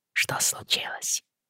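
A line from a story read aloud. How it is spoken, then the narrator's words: Whisper. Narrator (Russian): прошептал Роджер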